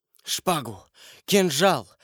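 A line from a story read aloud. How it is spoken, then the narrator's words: Whispering. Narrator (Russian): шептал Ламоль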